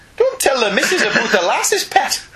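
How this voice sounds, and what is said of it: Weak attempt at Geordie accent. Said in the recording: “I can't do Geordie... that's an accent that fails me... That was a little bit better... I'm getting there, but I'm still some considerable miles away... in the direction of Geordie”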